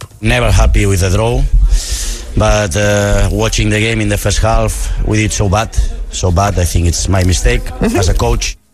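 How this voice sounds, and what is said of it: Accented English speech. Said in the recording (Dutch): “Ik hou zo van dat accent.”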